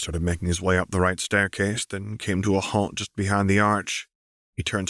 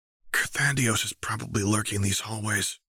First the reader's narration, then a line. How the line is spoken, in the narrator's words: whispered